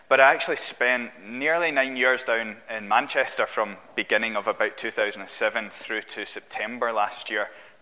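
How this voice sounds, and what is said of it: Glaswegian Scottish accent. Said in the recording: “I grew up in Glasgow. You can probably tell that from my accent.”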